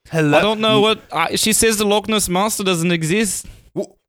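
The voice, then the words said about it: Put-on British or Scottish accent. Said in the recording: “You guys are getting into British territory. ... You gotta talk in Scottish. ... I've worked so hard on this accent. ... I'm working so hard on my accent.”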